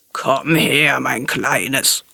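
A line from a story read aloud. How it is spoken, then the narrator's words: Crocodile growling. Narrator (German): knurrte das Krokodil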